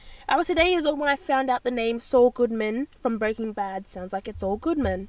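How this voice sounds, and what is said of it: Usual voice. Nothing is said of it.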